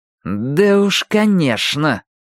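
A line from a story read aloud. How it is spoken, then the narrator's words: Through gritted teeth. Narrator (Russian): процедил Майки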